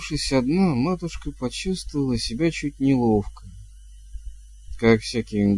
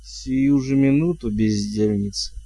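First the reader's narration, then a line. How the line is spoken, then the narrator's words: Purring. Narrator (Russian): промурлыкала она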